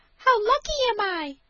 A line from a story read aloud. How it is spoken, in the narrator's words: cried she